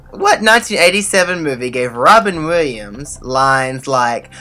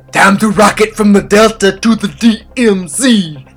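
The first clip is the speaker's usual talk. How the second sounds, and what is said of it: Robin Williams impression. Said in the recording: “my Robin Williams impression”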